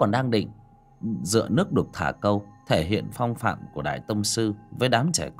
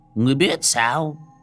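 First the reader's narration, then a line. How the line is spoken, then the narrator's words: Disbelieving old man shouting. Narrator (Vietnamese): Lão Trần Toàn có chút không tin được, hét lên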